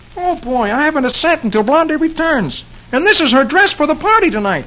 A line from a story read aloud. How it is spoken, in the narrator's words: Dagwood exclaims